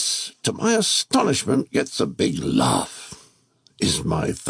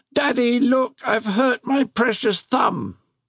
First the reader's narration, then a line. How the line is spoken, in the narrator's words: just before I burst into tears, howl